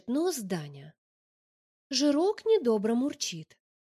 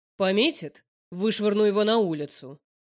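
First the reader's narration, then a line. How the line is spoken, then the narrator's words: Stern. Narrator (Russian): сообщает Даня строго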